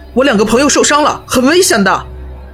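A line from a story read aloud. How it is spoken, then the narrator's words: Puzzled bellow. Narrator (Chinese): 我有点疑惑，但还是大吼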